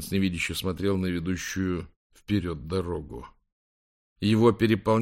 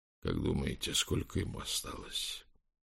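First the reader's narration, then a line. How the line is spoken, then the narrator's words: Whisper. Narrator (Russian): Хулиан прошептал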